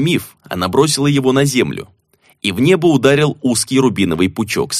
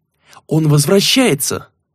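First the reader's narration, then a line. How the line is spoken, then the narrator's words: Exclamation. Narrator (Russian): воскликнула Наива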